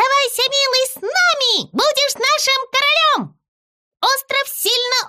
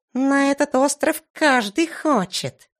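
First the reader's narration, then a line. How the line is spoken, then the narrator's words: Mumbling. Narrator (Russian): пробормотал Зыза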